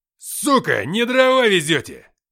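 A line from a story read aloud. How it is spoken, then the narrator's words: Snapping over the radio. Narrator (Russian): огрызнулась рация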